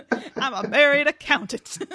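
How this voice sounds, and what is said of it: Speaks in a put-on accent. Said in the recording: “I don't know where this accent comes out.”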